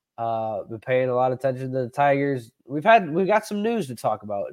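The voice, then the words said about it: Slightly sick-sounding voice. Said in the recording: “I'm a little under the weather ... I sound a little sicker”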